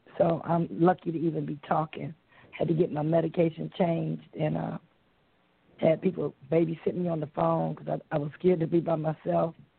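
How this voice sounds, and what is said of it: Losing voice, strained from illness. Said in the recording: “I'm also losing my voice because I've been sick this week”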